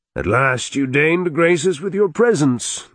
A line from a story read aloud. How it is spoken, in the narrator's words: the Duke called out